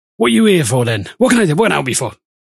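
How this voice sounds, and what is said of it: Put-on accent that keeps changing. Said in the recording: “his accent changing for the fourth time in four sentences”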